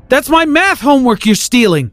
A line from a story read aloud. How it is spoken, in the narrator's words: I yelled after him